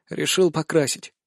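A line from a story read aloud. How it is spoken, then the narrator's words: Tired. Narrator (Russian): отвечаю устало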